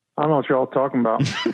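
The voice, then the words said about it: Joking Southern twang. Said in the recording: “Southern accent? ... Southern twang ... I hear the Southern twang”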